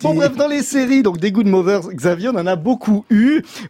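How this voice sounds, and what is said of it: Toulouse accent. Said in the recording (French): “je suis toulousain, j'ai mon accent de Toulouse”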